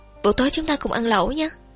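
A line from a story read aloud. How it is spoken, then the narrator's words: Smiling, struck by an idea. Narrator (Vietnamese): Triệu Tử Thiêm giống như nghĩ ra điều gì đó, liền mỉm cười quay sang nói với Lương Đông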